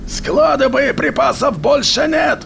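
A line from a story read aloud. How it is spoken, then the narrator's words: Yelling over wind. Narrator (Russian): заорал Казан, перекрикивая ветер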